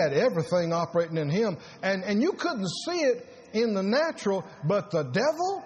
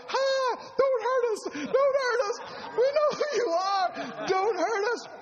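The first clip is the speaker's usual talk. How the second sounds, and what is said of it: Raised high-pitched crying voice. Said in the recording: “My voice went up that time”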